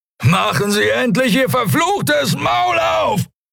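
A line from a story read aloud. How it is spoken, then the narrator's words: Shouting. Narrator (German): schrie er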